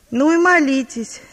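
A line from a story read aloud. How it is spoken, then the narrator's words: Shout. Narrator (Russian): не раз кричал он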